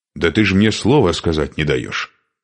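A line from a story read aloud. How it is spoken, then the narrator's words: Angry. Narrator (Russian): сердито ответил Шуйка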